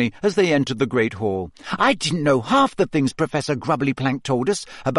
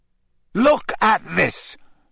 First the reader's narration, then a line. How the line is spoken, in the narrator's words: Harry snarled